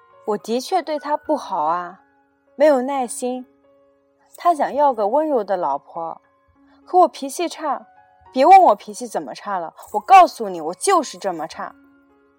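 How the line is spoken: Loud shout. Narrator (Chinese): 他大叫

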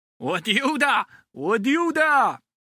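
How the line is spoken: Loud shouting. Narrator (Chinese): 乐乐 扯着嗓门喊了起来

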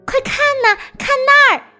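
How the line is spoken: Excited little mouse cry. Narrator (Chinese): 小老鼠兴奋地叫起来

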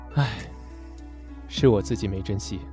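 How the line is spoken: Sighing murmur. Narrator (Chinese): 大谷叹着气，喃喃着

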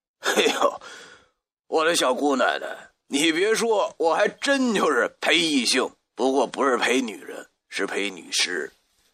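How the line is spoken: Exasperated, amused. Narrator (Chinese): 我又好气又好笑，对他讲

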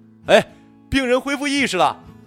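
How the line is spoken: Joyful shout. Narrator (Chinese): 医生欢呼雀跃地向门口喊

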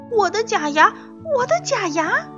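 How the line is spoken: Frantic yelling. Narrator (Chinese): 她 大喊大叫

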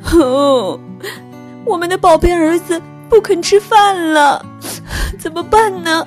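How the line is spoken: Sorrowful crying shout. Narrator (Chinese): 鳄鱼爸爸和鳄鱼妈妈彻底失望了，他们哭了起来，伤心的喊道

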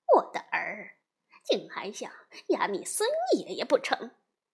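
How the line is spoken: Laughing. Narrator (Chinese): 悟空笑着说

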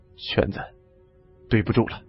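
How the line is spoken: Sighing. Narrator (Chinese): 李存壮叹道

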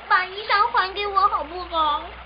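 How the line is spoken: Soft tearful pleading. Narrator (Chinese): 织女忍不住哭泣起来，细声哀求牛郎

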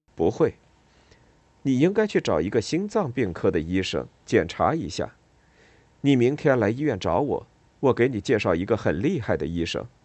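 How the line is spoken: Smiling. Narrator (Chinese): 他微笑了一下说

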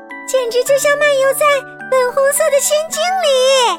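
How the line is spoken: Slightly excited loud shout. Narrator (Chinese): 微微兴奋的大声喊着

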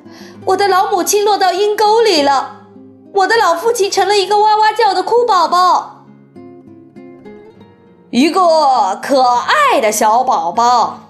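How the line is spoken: Pitiful cry. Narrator (Chinese): 可怜的巴克特太太叫道

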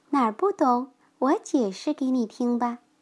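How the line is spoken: Quiet. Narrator (Chinese): 默默小声的对他身边的一只叫做拉莫娜的小白猫说

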